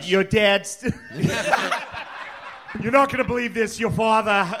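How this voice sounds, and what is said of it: Exaggerated Boston accent. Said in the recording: “The worst accent. ... through a Bostonian accent.”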